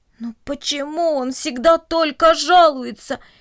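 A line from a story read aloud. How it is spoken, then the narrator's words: Groaning chorus. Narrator (Russian): простонали растения кукурузы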